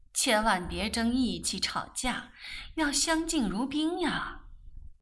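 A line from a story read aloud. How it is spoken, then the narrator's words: Mother sighing. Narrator (Chinese): 母亲又叹道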